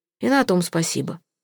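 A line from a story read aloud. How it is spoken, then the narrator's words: Muttering. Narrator (Russian): буркнул он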